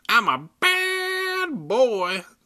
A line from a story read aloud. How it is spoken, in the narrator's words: the dummy said in a shrill baby voice